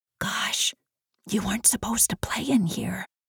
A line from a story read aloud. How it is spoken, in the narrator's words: whispered Izzy